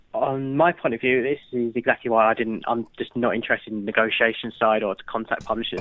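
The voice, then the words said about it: British English accent. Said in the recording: “people hearing your accent will be pleased that at least you're doing it for Britain”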